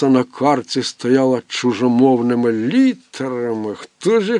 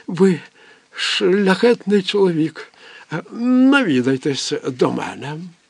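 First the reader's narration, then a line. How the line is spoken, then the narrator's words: Old man sobbing. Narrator (Ukrainian): Дідуган схлипнувши, промовив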